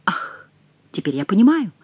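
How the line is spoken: Exclamation. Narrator (Russian): воскликнул Шико

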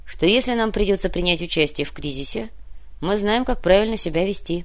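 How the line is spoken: Calm. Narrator (Russian): спокойно ответил Кортес

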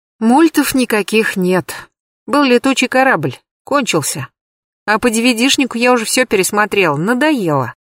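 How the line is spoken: Sighing. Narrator (Russian): вздохнула Даша

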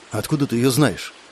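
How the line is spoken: Quiet question. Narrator (Russian): тихо спросил я

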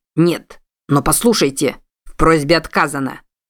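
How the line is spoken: Sharp. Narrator (Russian): резко произнес Салли

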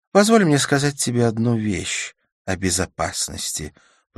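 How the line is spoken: Purring. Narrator (Russian): промурлыкала она

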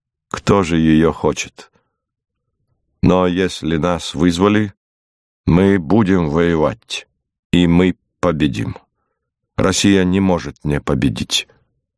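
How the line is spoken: Calm reply. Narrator (Russian): Пауль Сепп спокойно отвечал

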